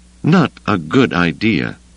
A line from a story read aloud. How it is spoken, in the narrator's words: Mara murmured